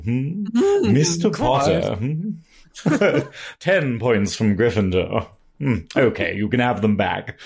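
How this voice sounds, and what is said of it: Harry Potter character voice. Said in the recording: “you launched into just a completely different voice ... like this Harry Potter character ... fake voice”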